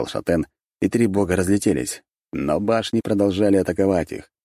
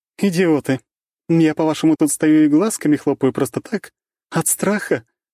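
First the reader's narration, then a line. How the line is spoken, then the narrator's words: Laughing. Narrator (Russian): рассмеялась Рейна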